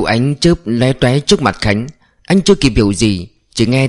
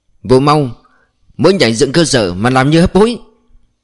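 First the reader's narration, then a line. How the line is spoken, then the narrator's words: Shouted. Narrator (Vietnamese): gã thiếu úy hét sau lưng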